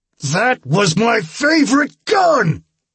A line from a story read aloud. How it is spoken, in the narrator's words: I bellowed